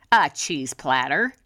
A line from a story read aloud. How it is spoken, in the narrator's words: grumbled